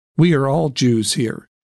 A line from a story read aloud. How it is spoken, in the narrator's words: said calmly